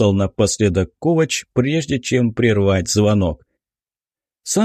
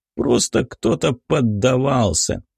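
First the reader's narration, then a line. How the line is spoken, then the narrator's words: Proud statement. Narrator (Russian): гордо задрав нос, произнес Рью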